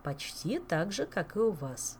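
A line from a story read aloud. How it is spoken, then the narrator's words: Calm explanation. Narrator (Russian): спокойно пояснил мэтр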